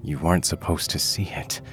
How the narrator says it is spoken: his mother mumbled, as if to herself, as if she'd forgotten he was there

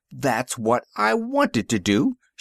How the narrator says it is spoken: Stranor Sleth exclaimed

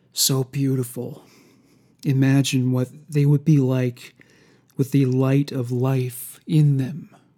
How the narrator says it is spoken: He whispered to himself

